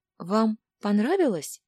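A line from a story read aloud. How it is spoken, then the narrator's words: Timid maid's question. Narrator (Russian): робко спросила служанка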